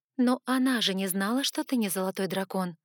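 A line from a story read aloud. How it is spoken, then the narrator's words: Timid girl's hesitant words. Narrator (Russian): Робко заикнулась девочка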